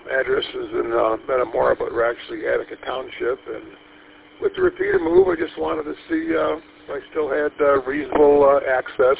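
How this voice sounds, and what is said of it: Raspy voice. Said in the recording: “my voice is a little bit raspy ... Just got up an hour ago, and my voice cords ain't been stretched yet”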